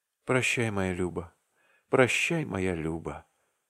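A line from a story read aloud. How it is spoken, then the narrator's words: Whisper. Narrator (Russian): шептал он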